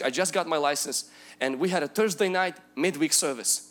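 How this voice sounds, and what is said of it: Non-native accented English. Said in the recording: “my English, you think I have an accent now”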